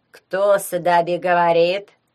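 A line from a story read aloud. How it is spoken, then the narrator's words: Nasal, fairly calm question. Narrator (Russian): спросил гнусавый, но довольно спокойный голос Вацлава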